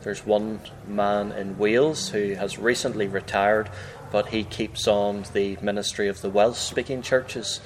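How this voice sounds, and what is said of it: Northern Irish accent. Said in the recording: “your accent is a little bit different than maybe a standard, what we would think of as a standard English accent ... I have a Northern Irish accent ... I speak a little differently to the rest of the people in Northern Ireland”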